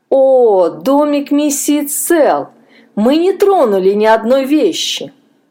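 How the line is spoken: Bitter laugh. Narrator (Russian): Джон горько рассмеялся

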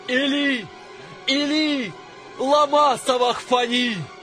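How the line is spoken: Loud anguished cry. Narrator (Russian): возопил Иисус громким голосом

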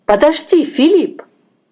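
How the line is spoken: Exclaiming. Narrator (Russian): воскликнула я

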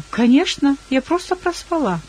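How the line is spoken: Cheerful answer. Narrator (Russian): я весело ответила

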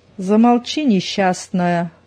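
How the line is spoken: Menacing reply. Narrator (Russian): грозно отозвалась Зина

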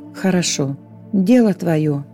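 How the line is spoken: Angel sighing. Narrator (Russian): вздохнул ангел

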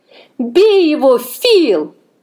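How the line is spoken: Yelling. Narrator (Russian): завопила я

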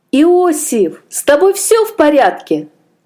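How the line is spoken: Exclamation. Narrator (Russian): воскликнул Аджей

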